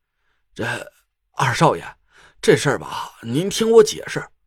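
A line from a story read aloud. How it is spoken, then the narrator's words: Embarrassed stammering. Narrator (Chinese): 德福的表情很尴尬，苦着脸结结巴巴的说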